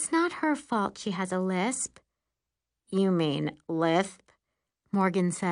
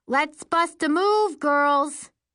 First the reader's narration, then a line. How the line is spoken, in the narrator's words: hollers